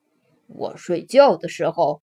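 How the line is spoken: Mumbling. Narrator (Chinese): 弗瑞德咕哝着

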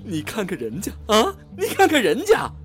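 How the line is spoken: Bitter, pained voice. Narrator (Chinese): 曹操声音苦中带涩的说道

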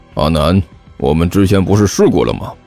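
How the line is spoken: Frowning, puzzled question. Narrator (Chinese): 狐狸猫皱着眉头问道

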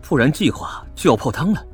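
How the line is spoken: Low voice. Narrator (Chinese): 我同样低声说道

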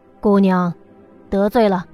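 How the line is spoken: Cold voice. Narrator (Chinese): 一个声音冷冷的道

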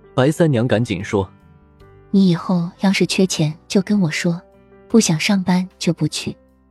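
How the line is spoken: Sighing. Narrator (Chinese): 莫小小叹了口气道

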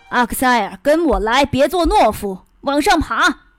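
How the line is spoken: Shouting. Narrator (Chinese): 我叫嚷着

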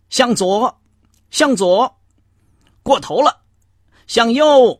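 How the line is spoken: Crisp trained calling. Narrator (Chinese): 领航员不断用训练有素的爽朗的声调喊着

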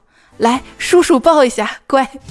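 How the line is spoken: Habitual coaxing. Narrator (Chinese): 嘴里还习惯性的说

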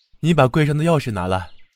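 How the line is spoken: Angry, huffy call. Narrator (Chinese): 贾琏气哼哼的叫平儿

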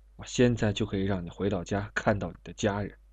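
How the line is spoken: Hushed. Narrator (Chinese): 瘦小的犯人压低声音

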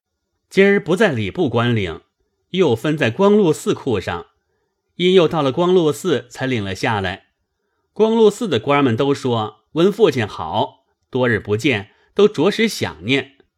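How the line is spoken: Ingratiating smiling reply. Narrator (Chinese): 贾蓉陪笑回说

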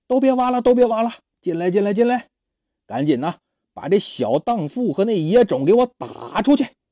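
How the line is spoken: Shouting. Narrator (Chinese): 他喊

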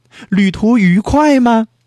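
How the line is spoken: Loud question. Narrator (Chinese): 野兔大声问

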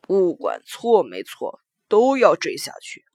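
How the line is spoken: Lowered voice. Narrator (Chinese): 淮南手下的一个人压低了声音

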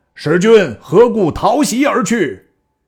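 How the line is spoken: Loud shout. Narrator (Chinese): 蔡瑁 大叫

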